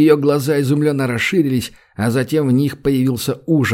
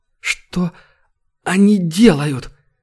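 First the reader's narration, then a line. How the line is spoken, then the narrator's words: Hoarse trembling rasp. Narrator (Russian): Сипло прохрипела Терра, вздрагивая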